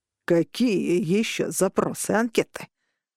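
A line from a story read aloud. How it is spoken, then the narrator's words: Growl. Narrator (Russian): прорычал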